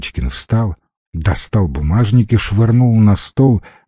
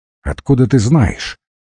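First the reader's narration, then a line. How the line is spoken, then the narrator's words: Sharp question. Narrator (Russian): резко спросила Зотова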